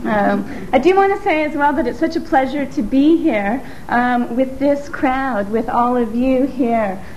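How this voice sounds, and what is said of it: Slightly strange transatlantic accent. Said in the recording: “weird accent ... Got a bit of a strange transatlantic accent”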